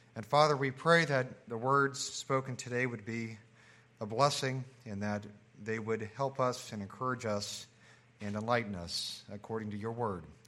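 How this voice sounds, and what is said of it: Voice changed by illness. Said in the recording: “my voice is maybe a little bit different today... my daughters were kind enough to share their sickness with me... I normally have allergies”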